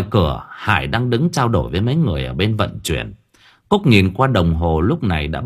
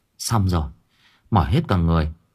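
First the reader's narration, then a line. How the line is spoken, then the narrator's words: Weary sigh. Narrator (Vietnamese): Cúc thở dài một tiếng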